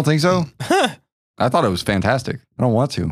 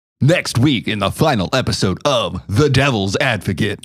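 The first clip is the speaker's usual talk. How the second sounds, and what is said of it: Advertiser-style announcer voice. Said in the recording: “I think I have a good advertiser voice.”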